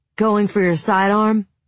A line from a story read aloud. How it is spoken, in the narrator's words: Ben asked, laughed